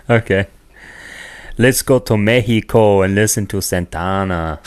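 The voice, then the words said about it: Put-on accent. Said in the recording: “You got an accent there, eh?”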